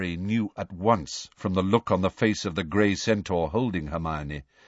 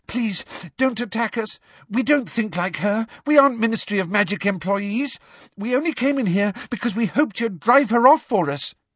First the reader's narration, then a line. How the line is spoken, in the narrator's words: said Hermione breathlessly